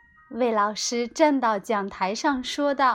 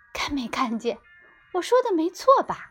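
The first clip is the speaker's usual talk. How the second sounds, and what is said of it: Quiet, hushed speaking voice. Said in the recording (Chinese): “小声说”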